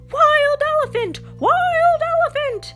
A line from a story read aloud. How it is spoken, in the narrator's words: People screaming